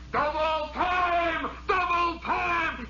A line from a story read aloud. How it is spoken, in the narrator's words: he hollers